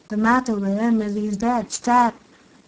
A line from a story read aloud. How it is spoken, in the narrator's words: replied Cecco in a hollow voice